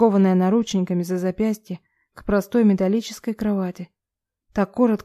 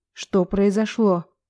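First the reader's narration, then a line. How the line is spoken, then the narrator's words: Growl. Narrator (Russian): прорычала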